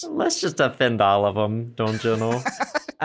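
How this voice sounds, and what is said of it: Put-on Minnesota accent. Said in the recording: “I'm going to answer this in a Minnesota accent ... just a random Minnesota”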